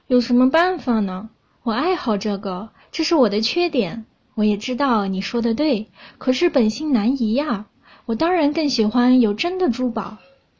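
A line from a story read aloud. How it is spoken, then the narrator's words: Gentle, smiling reply. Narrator (Chinese): 他露出温柔的笑容，每一次都这么回答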